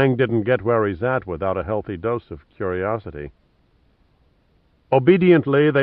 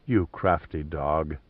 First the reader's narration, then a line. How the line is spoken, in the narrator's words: she murmured